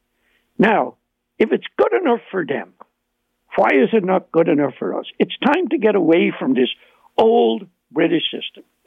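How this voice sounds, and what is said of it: Irish accent. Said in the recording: “you can hear my Irish accent.”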